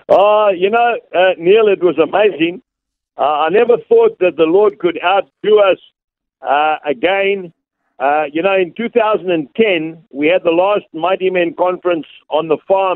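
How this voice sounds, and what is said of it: South African accent. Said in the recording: “we're enjoying the South African accent too”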